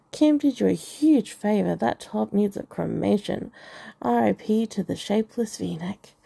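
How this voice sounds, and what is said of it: Posh cut-glass English accent. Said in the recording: “Ebony said in her cut glass accent”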